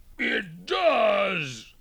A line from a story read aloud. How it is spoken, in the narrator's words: moaned the bear